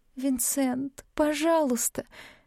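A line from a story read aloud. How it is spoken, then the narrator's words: Sobbing pleas. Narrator (Russian): Я выдыхала мольбы вместе с рыданиями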